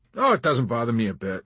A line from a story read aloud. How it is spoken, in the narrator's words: he responded cheerfully